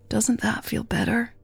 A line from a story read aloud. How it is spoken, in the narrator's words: Jasmine whispered